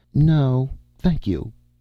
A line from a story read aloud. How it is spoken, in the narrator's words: said Cappen, regretfully but firmly